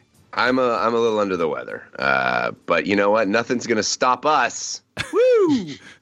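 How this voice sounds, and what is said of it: Sick-sounding voice. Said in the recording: “He sounds sick.”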